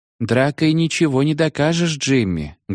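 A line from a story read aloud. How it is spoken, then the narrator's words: Sad speech. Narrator (Russian): грустно говорила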